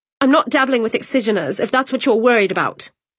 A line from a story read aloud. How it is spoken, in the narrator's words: she snapped